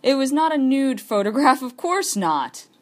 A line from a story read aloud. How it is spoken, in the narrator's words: I laughed